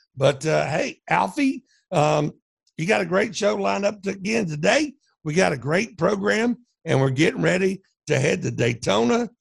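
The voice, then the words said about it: Hoarse, strained voice. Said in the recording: “I've been screaming so much at the TV for the last couple of days ... So I do apologize for being a little hoarse.”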